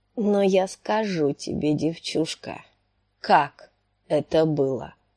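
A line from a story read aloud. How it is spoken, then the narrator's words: Hoarse wheeze. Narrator (Russian): прохрипел он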